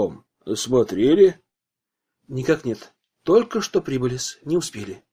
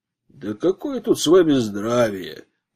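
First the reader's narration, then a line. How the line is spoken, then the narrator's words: Grumbling man. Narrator (Russian): пробурчал мужчина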